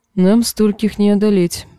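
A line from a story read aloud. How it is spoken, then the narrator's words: Plain. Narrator (Russian): сказал Трис Ботли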